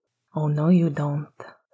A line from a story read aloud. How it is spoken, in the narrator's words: Sirius said under his breath